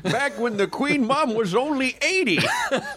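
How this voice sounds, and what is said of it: Old man voice. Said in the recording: “We both got the same old man voice. ... We do have voice. ... And yours is weirdly not British”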